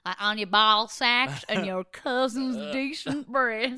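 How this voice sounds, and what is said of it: Put-on Southern accent. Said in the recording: “you just said ball sack in a different weird accent... Southern”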